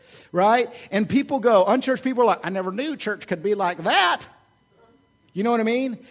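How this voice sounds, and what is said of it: Usual voice. Nothing is said of it.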